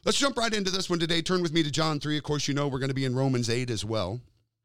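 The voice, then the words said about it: Slightly strained voice. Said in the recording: “My voice is a little strained”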